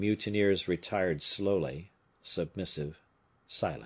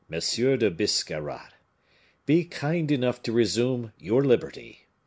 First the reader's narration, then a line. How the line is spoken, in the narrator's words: said the Bishop of Vannes, with a singular accent of nobility and courtesy